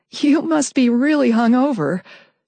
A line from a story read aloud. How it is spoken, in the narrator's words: she laughed nervously